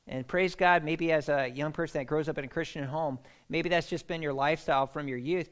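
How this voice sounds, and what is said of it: American accent. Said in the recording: “I'm in Scotland and I've got an American accent”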